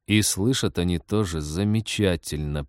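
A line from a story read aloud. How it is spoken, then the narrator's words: Hissing. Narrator (Russian): прошипел Тед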